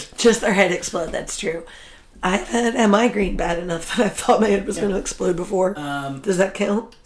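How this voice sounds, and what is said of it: Slightly congested, not very scratchy voice. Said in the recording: “I have a cold. At least my voice isn't super scratchy, but I do have a cold.”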